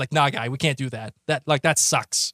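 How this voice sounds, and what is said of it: Thick put-on Boston accent. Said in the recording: “like my thickest Boston accent”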